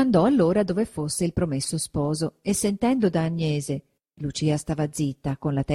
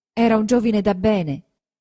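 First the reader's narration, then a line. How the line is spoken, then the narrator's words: Blushing but steady voice. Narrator (Italian): disse Lucia facendo il viso rosso ma con voce sicura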